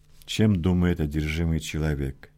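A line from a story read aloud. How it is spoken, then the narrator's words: Heavy sigh. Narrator (Russian): тяжело вздохнул Лёдник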